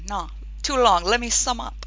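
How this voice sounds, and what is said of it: Bad put-on film character accent. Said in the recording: “that was a Princess Bride quote... With a really bad Inigo Montoya accent.”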